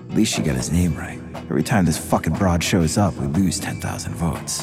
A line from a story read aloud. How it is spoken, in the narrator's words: Alan King quietly said to Tommy